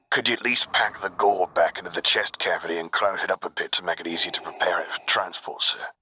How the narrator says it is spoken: Kix muttered

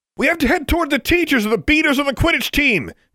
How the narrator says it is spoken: yelled

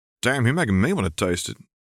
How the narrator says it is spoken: Dave snorted

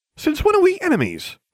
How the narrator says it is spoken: I exclaimed

